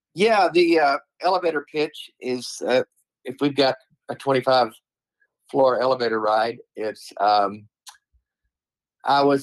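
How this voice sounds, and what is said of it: Southern drawl. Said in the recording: “it's the Southern drawl. There's no mistaking it.”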